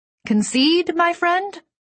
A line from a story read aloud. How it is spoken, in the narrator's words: said loudly